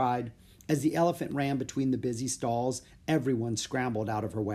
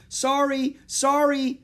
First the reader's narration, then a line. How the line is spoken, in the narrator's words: yelled Jack